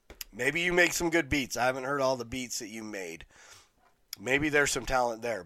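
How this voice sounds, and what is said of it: Hoarse, strained, nearly lost voice. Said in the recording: “My voice just is gone today.”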